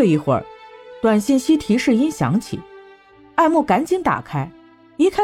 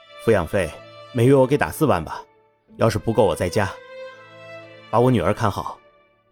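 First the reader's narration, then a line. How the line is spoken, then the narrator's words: Bitter wry reply. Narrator (Chinese): 艾木一声苦笑，回复了一句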